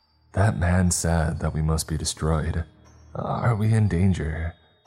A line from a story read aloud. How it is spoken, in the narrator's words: He was pale and his voice was very shaky when he said